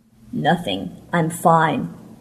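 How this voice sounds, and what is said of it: Hoarse, thick voice. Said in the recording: “His hoarse, thick voice”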